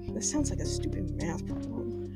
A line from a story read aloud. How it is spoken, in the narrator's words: muttered